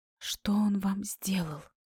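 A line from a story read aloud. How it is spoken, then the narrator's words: Whispered. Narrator (Russian): Иначе как шепотом я говорить не могла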